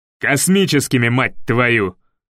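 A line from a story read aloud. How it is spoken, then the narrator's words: Colonel's bark. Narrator (Russian): гаркнул полковник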